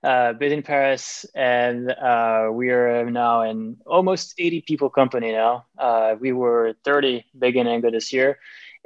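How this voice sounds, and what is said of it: French accent in English. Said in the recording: “I'm French, as you can tell probably from my accent.”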